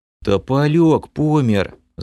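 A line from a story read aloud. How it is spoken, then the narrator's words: Sighing. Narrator (Russian): Вздохнул лысый эльф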